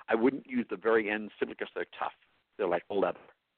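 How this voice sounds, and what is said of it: New York accent. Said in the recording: “Did my New York accent just show with the leather?”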